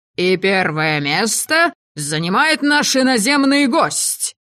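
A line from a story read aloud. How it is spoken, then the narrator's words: Roaring announcement. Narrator (Russian): Взревел хозяин притона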